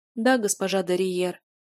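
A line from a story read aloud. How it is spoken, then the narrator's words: Even tone. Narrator (Russian): ровным тоном сказала Риза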